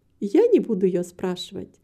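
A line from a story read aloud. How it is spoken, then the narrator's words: Laughing reply. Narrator (Russian): ответила, смеясь, миссис Мабрей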